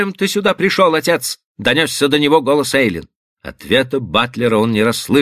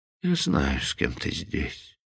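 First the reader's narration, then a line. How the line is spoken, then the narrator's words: Sad. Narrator (Russian): продолжал он, грустно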